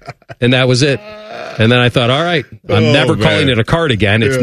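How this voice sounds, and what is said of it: Usual voice. Nothing is said of it.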